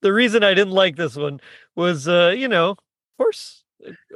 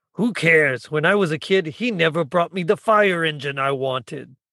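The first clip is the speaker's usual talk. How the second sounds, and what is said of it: Imitates a cartoon character's voice. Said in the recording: “I'm going to try to do my best Waldo voice”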